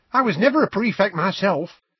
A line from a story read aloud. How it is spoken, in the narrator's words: said Tonks brightly from behind Harry